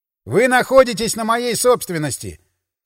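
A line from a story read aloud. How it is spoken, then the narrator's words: Loud and clear. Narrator (Russian): сказал громко и отчетливо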